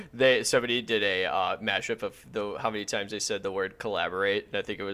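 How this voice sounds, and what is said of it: Usual voice. Nothing is said of it.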